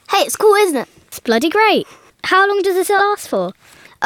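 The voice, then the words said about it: High-pitched little girl voice. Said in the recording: “you sound well like a little girl ... I sound like a little girl”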